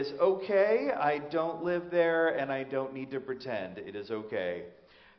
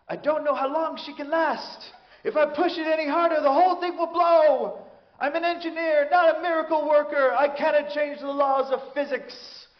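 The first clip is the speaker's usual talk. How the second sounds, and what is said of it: Bad put-on Scottish accent. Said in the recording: “the worst Scottish accent ever”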